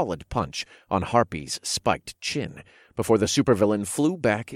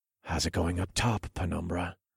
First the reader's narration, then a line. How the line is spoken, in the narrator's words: whispered into the comms